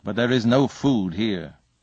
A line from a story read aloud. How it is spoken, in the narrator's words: said Father Wolf stiffly